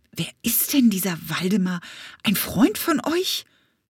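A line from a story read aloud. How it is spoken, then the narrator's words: Panting. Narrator (German): keuchte Leopold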